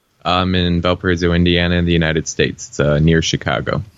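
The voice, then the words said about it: American accent. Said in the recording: “you're obviously, from the accent, a Native American, not an expat”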